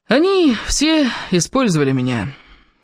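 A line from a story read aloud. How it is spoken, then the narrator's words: Agonized groan. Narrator (Russian): Кевин мучительно застонал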